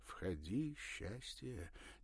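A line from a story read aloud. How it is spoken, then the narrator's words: Said quietly. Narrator (Russian): тихо сказал Ракелов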